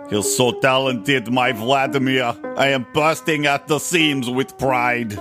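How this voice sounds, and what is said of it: Put-on Russian-Austrian style accent. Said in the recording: “half Arnold Schwarzenegger and half Russian accent. I need to practice these accents”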